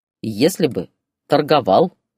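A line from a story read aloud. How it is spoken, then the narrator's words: Laughing mother. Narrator (Russian): рассмеялась мама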